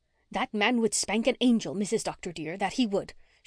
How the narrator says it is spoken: she had declared bitterly

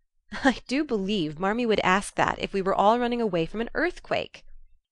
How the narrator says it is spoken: cried Jo, adding with a laugh

